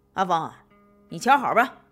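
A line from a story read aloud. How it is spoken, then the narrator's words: Thoughtless shout. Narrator (Chinese): 潘子傻了吧唧的，想都没想，喊了一句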